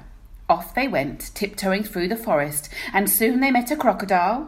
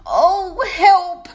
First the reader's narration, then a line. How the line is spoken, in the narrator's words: whimpered the lion